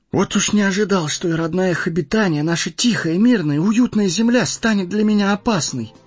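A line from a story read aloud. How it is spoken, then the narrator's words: Exclaimed. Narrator (Russian): воскликнул Фродо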